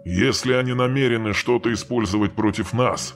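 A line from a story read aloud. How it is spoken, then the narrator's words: Grim. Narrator (Russian): мрачно произнес Джагатай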